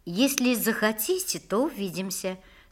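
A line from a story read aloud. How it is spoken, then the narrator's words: Calm reply. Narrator (Russian): спокойно ответила Настя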